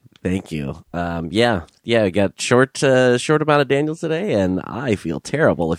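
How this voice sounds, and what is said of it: Congested voice from a cold. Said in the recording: “if you can't tell by my voice... It's just a cold”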